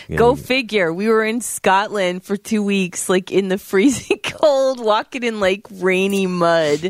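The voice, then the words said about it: Slightly off, sick-sounding voice. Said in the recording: “my voice is a little off because I'm sick”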